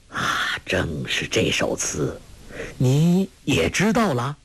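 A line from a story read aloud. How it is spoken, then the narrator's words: Sighing. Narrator (Chinese): 一灯大师却叹道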